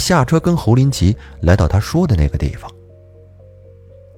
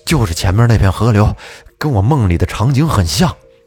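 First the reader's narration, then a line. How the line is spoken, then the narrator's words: Breathless. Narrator (Chinese): 这小子气喘吁吁的跑过来跟我说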